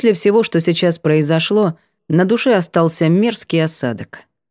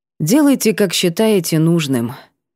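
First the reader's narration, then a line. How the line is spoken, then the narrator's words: Tired remark. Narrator (Russian): обронила устало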